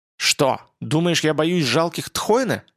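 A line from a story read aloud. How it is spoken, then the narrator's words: Giantess roaring. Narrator (Russian): Великанша взревела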